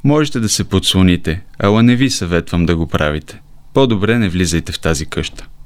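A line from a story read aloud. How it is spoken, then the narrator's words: Sad girl's reply. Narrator (Bulgarian): отвърнал момичето с тъжен глас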